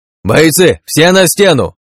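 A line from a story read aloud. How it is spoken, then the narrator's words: Shout. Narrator (Russian): крикнул я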